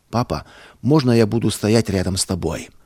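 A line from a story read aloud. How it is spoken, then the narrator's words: Quiet question. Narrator (Russian): Павлик тихо спросил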